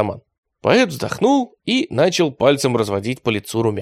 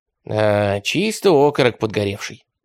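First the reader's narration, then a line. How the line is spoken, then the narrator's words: Sigh. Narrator (Russian): вздохнул Радищев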